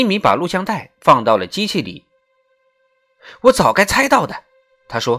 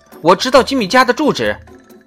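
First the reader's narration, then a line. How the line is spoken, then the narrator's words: Shouted backward. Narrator (Chinese): 罗兰往后喊道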